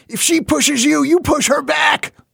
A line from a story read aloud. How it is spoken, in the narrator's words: he shouted once